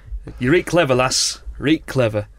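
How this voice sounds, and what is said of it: Put-on northern English accent. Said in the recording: “a person with a northern accent ... I should probably drop the accent.”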